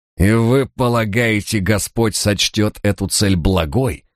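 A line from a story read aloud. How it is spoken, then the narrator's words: Words through gritted teeth. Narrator (Russian): процедил он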